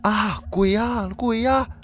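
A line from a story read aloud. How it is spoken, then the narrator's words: Shouting. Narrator (Chinese): 有人大喊说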